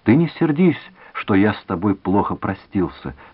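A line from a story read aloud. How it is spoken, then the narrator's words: Gentle. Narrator (Russian): сказал он ласково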